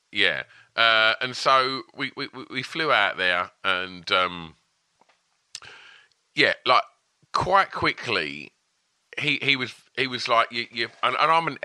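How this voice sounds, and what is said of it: Essex English accent. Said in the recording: “I presume most people would have guessed from my accent that I'm from Essex”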